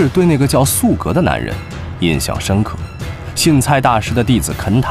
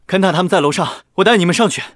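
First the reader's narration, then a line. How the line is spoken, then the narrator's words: Hurried. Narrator (Chinese): 素格急忙说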